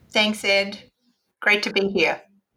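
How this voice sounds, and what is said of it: Australian accent. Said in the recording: “already detected an accent. ... have you ever been to Australia”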